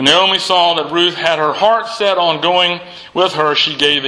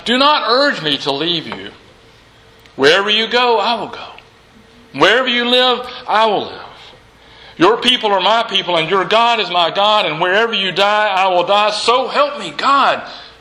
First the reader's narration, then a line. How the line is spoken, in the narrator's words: Ruth says